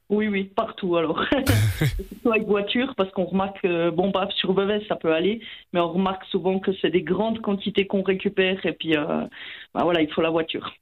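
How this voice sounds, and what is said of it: Slight regional French accent. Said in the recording (French): “avec votre petit accent”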